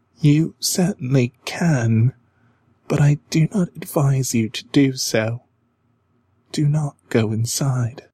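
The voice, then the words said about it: Sad young girl's voice. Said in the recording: “in a sad voice.”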